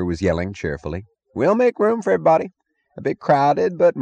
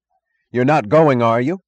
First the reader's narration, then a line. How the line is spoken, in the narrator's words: He cried to his passengers